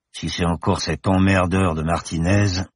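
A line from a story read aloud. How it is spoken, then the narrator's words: Grumbled. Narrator (French): grogna-t-il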